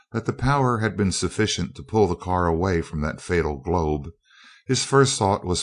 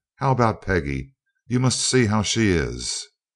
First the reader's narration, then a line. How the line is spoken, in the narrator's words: she exclaimed